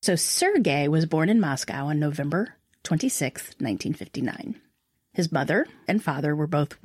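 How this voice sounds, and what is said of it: Usual voice. Nothing is said of it.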